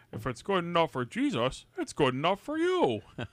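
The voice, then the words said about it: Impression of Father Crappy. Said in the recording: “to borrow from Father Crappy ... It's a good impersonation.”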